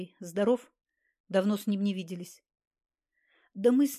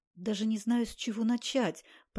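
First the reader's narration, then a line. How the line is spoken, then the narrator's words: Muttering. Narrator (Russian): пробормотал гость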